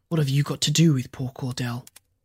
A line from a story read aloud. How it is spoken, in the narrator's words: Nya North said quietly